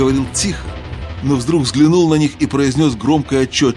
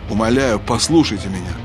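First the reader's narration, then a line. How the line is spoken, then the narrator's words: Forced calm. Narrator (Russian): продолжал рыцарь, стараясь говорить спокойно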